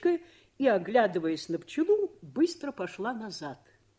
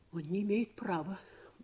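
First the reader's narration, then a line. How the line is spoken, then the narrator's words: Jealous, vexed muttering. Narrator (Russian): бормотала, стараясь осмыслить свою ревность и свою досаду на мужа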